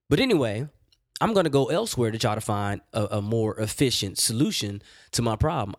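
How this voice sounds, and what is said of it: Rough, strained voice. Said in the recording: “My voice is, is all jacked up”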